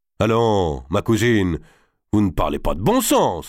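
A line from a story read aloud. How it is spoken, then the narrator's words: Exclaiming. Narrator (French): s'écria Robert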